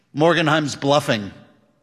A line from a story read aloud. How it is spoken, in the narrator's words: said Ebling